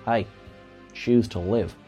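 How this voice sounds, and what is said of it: Poor put-on Australian accent. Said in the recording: “Now that I've offended my entire Australian audience, for which I am terribly sorry for that terrible accent”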